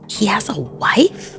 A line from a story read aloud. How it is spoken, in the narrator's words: hissed Neva